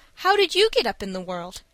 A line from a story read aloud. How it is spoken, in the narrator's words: asked Dick anxiously